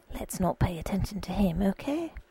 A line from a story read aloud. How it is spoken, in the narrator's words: said in a trusting and secretive undertone